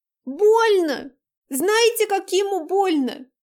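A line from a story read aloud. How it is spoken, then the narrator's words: Screaming. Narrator (Russian): закричала Дайнека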